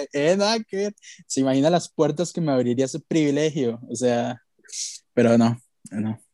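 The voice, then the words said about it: Tired, worn-out voice. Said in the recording (Spanish): “ando como la voz un poco agotada”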